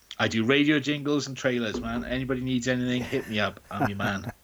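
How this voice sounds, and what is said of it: Usual voice. Nothing is said of it.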